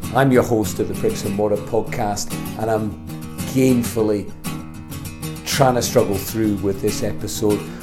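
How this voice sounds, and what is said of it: Slightly croaky voice. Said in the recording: “You may hear in my voice that it's a slightly croaky”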